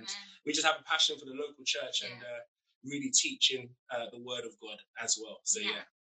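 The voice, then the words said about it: British London accent. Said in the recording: “based in London. As you can tell by our accent. ... your beautiful accent. ... we're not from America”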